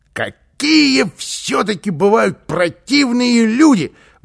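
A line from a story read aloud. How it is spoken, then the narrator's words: Exclaim. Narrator (Russian): воскликнул он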